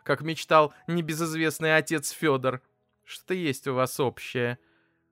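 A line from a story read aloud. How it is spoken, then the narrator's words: Mother laughing. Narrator (Russian): рассмеялась мама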